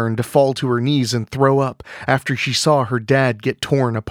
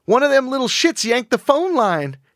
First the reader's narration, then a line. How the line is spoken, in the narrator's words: she shrieked